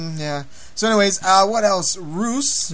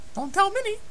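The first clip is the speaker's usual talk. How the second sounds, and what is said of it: Mickey Mouse cartoon voice. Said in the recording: “my Mickey impersonation”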